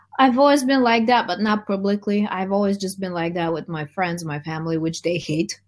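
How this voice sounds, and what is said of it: Eastern European accent. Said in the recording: “They really dissed my accent because, I mean, the whole Eastern European thing”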